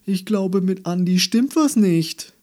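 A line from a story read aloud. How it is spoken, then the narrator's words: Calling downstairs. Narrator (German): rief er die Treppe hinab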